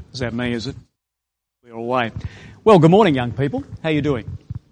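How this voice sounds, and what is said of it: Australian accent. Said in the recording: “I'm from Australia. Can you tell that? Is the accent Australian? Is it? Do you understand the accent”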